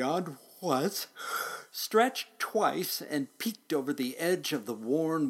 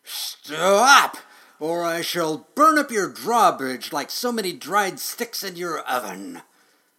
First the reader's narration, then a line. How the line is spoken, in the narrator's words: With flames broiling from his mouth and his nostrils puffing smoke, he roared